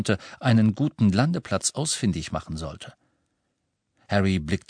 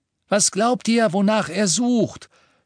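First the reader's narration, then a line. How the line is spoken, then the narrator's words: Shouting. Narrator (German): schrie Ron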